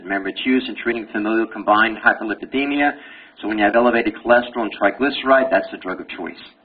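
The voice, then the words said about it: Brooklyn accent. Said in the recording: “you got a Brooklyn accent ... I can talk Brooklynese anytime I want”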